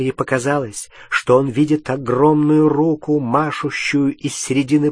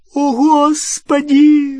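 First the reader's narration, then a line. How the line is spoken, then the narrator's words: Shrieked. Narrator (Russian): взвизгнула Гермиона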